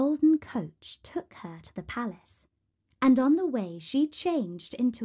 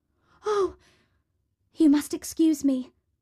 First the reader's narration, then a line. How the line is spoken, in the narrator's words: exclaimed Cinderella